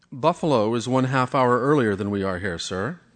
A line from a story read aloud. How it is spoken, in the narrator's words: took a deep breath and said, very evenly